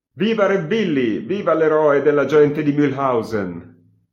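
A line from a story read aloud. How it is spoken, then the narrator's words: Laughing shout. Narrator (Italian): ridendo gli grido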